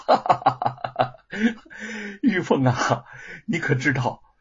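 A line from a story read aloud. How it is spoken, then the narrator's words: Smug loud laughter. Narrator (Chinese): 吴承恩得意的大笑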